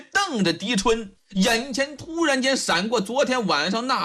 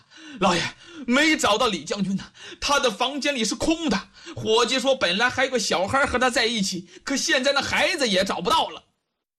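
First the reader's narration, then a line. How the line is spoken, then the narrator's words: Breathless shouting. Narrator (Chinese): 这狄春气喘吁吁跑了进来，一边擦汗一边嚷啊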